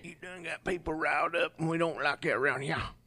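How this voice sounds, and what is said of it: Put-on Louisiana accent. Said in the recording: “That's my Louisiana accent.”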